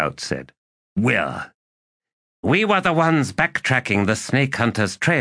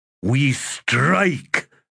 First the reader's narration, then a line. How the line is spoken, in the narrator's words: the war chief snarled